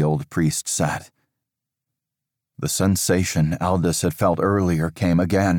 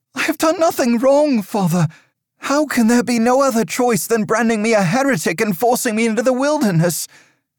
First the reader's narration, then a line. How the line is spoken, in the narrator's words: pleaded